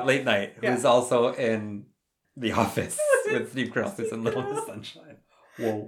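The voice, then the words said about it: Congested, stuffy-nosed voice. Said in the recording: “I have a bit of a cold. ... I have a head cold.”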